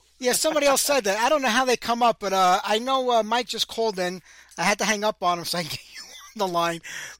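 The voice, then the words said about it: Brooklyn New York accent. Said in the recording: “Hence the accent ... that's the Brooklyn ... a Brooklyn”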